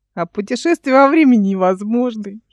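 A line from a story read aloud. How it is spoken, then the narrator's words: Giggling. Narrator (Russian): хихикнул Димка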